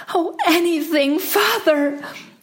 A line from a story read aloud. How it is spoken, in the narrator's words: cried the princess